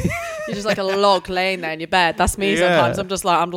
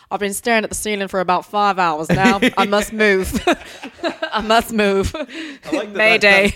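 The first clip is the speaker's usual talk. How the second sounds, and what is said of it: Put-on accent for inner voice. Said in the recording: “That's your internal voice's accent as well.”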